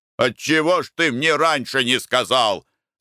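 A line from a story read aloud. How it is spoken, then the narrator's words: Shouting. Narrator (Russian): закричал на него Николай Иванович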